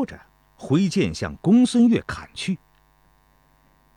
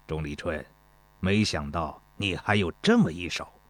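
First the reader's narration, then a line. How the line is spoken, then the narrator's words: Cold sneer. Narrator (Chinese): 公孙越冷笑道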